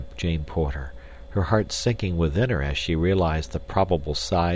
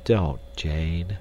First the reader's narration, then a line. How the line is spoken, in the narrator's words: said Clayton sadly